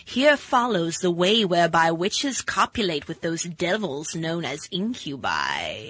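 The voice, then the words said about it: Creepy spooky reading voice. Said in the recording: “that's a good creepy voice for Halloween”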